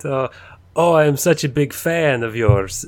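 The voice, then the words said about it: Put-on Russian accent. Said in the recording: “this is in a Russian accent”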